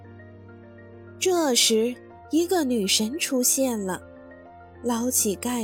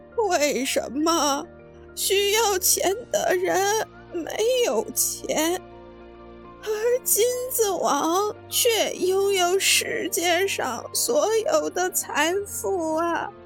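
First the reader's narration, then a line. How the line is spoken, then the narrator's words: Gentle. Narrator (Chinese): 女神温柔地 说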